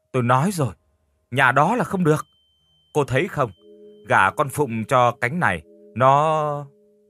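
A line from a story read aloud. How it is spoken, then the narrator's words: Snapping irritably. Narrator (Vietnamese): Bà Phủ gắt lên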